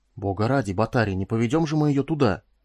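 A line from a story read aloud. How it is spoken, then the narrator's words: Indignant whisper. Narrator (Russian): возмущенно прошептал Куделка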